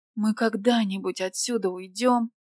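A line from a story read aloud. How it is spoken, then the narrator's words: Moaning. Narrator (Russian): простонала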